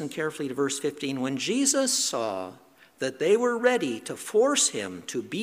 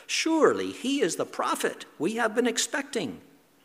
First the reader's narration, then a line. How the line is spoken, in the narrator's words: the people … they exclaimed